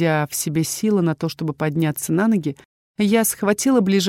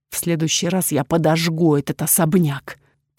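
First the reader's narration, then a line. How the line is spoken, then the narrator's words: Whisper. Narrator (Russian): прошептала я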